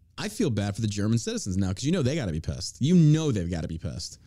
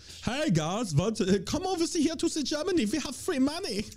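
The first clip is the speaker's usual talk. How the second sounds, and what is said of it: Put-on German accent. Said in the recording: “It's pretty good. Good German accent. ... It's very accurate.”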